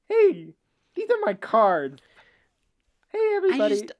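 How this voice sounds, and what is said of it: Jay Leno impression with lisp. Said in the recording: “my impersonation of Jay Leno? This is my impersonation of Jay Leno. He did have a lot of lisp.”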